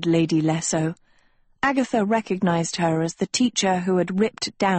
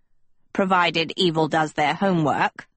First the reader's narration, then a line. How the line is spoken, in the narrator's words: Professor Manley growled